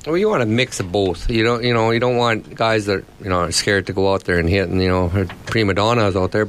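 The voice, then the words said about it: Strong Australian accent. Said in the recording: “that's a very strong Australian accent you've got”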